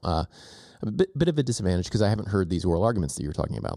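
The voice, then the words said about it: Stuffy, congested voice. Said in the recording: “I have a little bit of a cold. Can you tell?”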